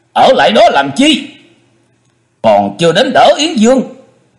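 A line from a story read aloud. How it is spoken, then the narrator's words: Strained barking shout. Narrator (Vietnamese): Chu Quyền không khỏi chật vật, quát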